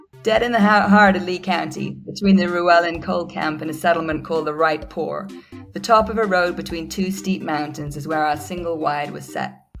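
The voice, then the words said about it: Cod American accent. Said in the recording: “some sort of like COD American accent”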